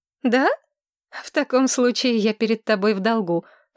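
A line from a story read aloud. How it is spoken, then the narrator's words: Smirking grunt. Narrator (Russian): хмыкнула Маргарет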